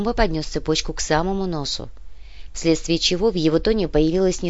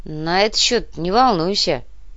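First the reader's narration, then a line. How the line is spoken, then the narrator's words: Grumbled. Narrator (Russian): проворчал Артем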